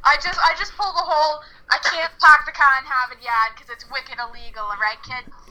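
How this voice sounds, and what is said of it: Put-on Boston accent. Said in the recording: “Boston ... this like accent ... That's actually pretty good ... that was solid”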